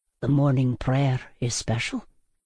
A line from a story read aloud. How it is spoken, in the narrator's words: he murmured